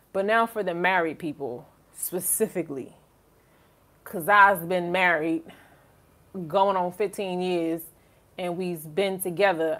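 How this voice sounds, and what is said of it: Put-on Southern US accent. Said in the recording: “I don't know why I'm going to my little down south voice ... I just went to my little southern accent”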